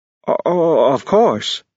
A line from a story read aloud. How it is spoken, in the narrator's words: the man stammered out